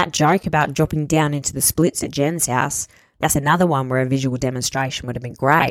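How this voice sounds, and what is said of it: Usual voice. Nothing is said of it.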